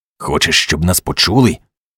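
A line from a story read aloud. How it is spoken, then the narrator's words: Irritated hiss. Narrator (Ukrainian): роздратовано засичав він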